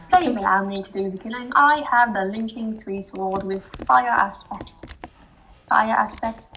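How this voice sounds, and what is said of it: Formal put-on British accent. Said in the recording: “Why did you say that so formally? ... This accent is not working out. I'm sorry, British people.”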